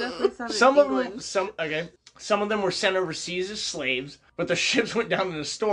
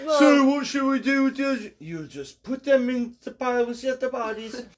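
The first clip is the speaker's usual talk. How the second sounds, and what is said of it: Put-on Italian accent. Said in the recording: “You went Italian on that.”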